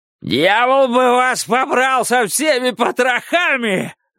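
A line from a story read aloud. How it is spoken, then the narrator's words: Yelling. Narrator (Russian): заорал Кларенс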